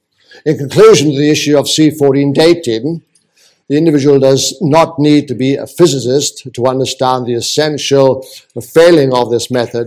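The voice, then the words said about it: Welsh accent. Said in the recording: “I know I'm speaking with a Welsh accent.”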